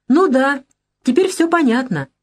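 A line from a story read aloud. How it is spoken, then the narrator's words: Says joyfully. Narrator (Russian): радостно говорит Вера Филипповна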